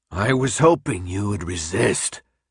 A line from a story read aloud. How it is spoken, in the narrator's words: he snarled